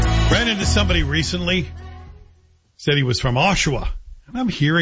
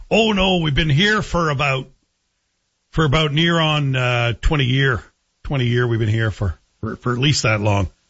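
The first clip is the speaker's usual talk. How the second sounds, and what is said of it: Imitated Ottawa Valley accent. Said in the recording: “that sounds like an Ottawa Valley accent”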